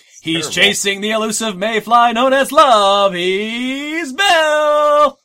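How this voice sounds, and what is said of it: Mock announcer voice. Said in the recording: “doing the announcer voice? ... His voice is not working. It's terrible.”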